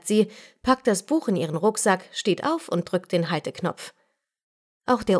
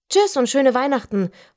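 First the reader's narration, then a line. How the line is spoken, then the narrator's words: Calling out. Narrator (German): ruft sie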